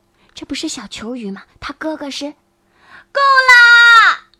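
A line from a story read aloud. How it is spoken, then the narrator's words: Shouting. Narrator (Chinese): 小小三角鱼大叫一声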